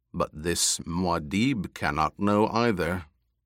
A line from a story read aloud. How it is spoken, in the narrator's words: the taller companion added in a cold voice